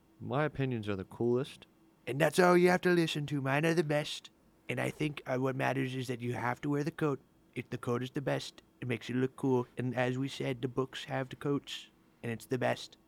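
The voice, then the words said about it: Imitates another person's voice. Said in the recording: “doing a Trent voice ... That was like a little too spot on.”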